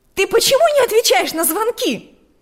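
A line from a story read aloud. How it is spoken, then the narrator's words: Shouted from the doorway. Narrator (Russian): закричала она прямо с порога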